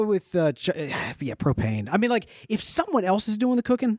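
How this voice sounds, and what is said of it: Usual voice. Nothing is said of it.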